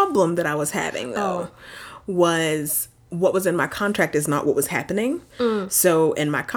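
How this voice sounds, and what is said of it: Usual voice. Nothing is said of it.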